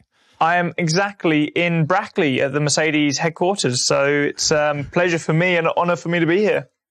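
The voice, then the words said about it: British English accent. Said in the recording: “that British kind of, is it an accent or is it a type of an English, the real English? ... I like the accent a lot. The British accent is very, very good.”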